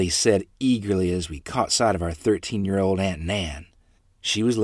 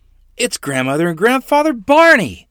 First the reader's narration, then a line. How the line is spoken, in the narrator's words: I said happily